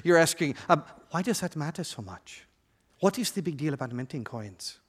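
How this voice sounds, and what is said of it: Put-on African accent. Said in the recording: “In that Black Panther accent of yours ... That was a great Black Panther accent. ... I sounded like I was from Ethiopia.”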